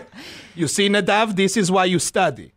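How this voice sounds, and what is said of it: Yelled imitation with Israeli accent. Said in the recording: “The Israeli? ... Do his accent, though. ... He'd yell it.”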